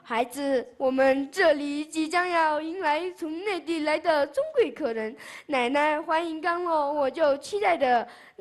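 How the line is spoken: Elderly woman, smiling. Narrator (Chinese): 奶奶笑着说

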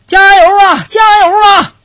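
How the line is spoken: Passing rider shouting. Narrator (Chinese): 一个骑电动车的人呐，就喊了

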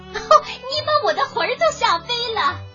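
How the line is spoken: Old woman shouting. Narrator (Chinese): 瘦小的老妇人喊起来

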